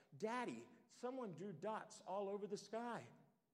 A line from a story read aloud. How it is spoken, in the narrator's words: exclaimed with surprise